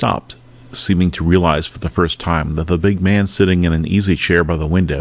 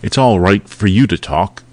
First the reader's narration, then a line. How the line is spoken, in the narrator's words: He said fiercely